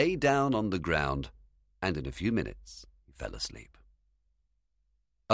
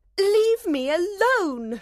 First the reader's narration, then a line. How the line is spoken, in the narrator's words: cried